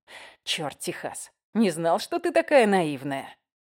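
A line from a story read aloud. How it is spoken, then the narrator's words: Malicious chuckle. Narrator (Russian): Я злобно хохотнул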